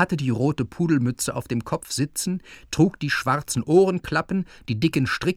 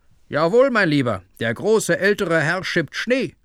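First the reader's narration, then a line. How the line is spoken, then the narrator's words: Worker calling loudly back. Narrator (German): Einer der beiden Arbeiter rief laut zurück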